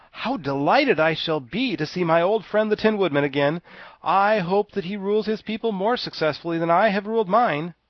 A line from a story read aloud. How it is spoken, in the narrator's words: The Scarecrow became greatly animated at this sight, and exclaimed